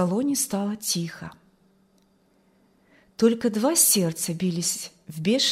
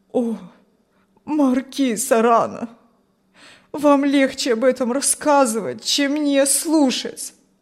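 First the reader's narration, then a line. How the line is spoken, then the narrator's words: Pleading, old man. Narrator (Russian): взмолился старик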